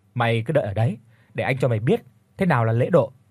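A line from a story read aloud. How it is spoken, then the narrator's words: Loud laughing reply. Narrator (Vietnamese): Tôi cũng nhanh chóng cười lớn rồi đáp lại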